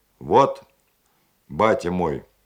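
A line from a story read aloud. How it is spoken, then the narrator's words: Deep, thick voice. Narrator (Russian): густым голосом представил адмирал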